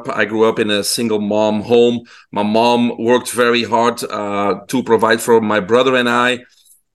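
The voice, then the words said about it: Belgian accented English. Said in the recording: “people can hear my accent. I'm originally from Belgium in Europe.”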